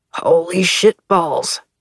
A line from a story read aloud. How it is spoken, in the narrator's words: Bug muttered